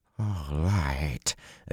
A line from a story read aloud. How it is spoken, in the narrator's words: Aginin said hoarsely